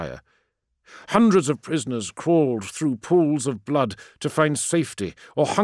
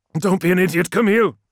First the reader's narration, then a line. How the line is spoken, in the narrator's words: cried Lemuel